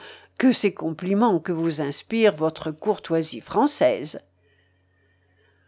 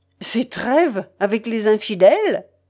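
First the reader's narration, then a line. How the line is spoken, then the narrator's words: Abrupt interrupting exclamation. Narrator (French): s'écria-t-il, sans s'inquiéter de la manière abrupte dont il interrompait l'altier templier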